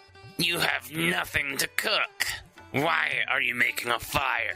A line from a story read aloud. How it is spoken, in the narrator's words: the troll snarled